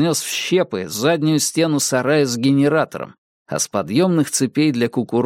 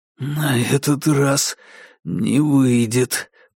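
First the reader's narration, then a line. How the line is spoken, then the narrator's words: Hoarse rasp. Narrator (Russian): прохрипел Дейл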